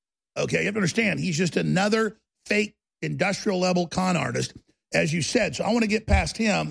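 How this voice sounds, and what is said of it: Usual voice. Nothing is said of it.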